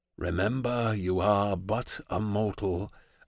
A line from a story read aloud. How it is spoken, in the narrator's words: Atlas whispers into my ear